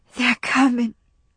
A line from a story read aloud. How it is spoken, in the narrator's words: whispered Melanie, undeceived